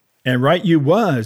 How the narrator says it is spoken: he cried

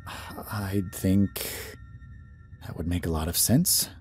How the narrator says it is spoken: I mumble

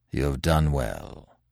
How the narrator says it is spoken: said Manfred gravely

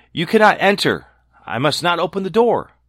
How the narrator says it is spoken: Snow White called out

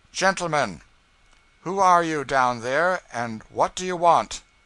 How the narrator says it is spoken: George speaking in a calm, clear voice, said

